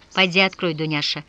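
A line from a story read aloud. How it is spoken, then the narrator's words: Quiet order. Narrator (Russian): негромко распорядилась она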